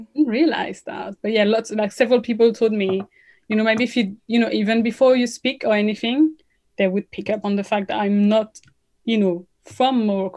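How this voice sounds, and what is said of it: French accent. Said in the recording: “the French accent comes up. So that's not hard to guess.”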